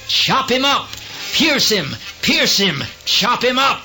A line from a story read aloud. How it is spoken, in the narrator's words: They shouted